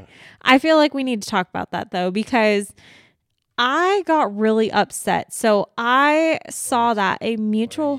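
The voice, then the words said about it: Yelling, loud upset voice. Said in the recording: “Why are you yelling”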